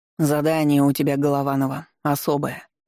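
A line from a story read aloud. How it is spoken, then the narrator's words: Colonel's gloomy voice. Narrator (Russian): мрачно сказал полковник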